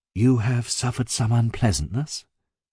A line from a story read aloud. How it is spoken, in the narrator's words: I exclaimed